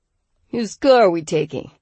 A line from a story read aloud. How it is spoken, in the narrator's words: Felix asked dryly